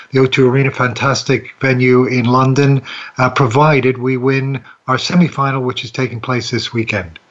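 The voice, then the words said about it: Blended Canadian-Irish accent. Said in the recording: “he doesn't have an English accent. It's a blend. I think it's quite Canadian, but it's also part Irish”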